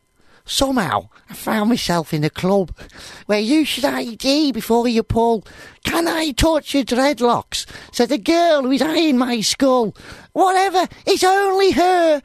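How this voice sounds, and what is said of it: Put-on Scouse accent. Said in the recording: “This is to be in a Scouse accent, shouldn't it?”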